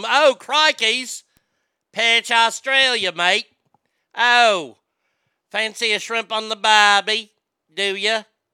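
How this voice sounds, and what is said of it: Put-on Australian accent. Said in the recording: “Been working on my crocky accent”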